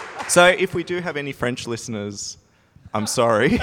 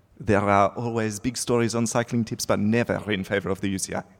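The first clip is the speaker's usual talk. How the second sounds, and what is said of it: Put-on French accent. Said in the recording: “apparently I need to do the French accent”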